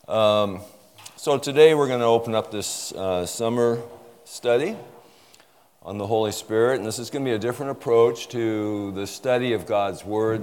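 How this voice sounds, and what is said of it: Voice sounds slightly sick, congested. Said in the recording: “I've got a bit of a cold. I've been fighting a cough all week”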